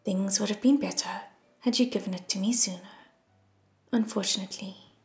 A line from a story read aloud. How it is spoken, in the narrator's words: Lan Ying said softly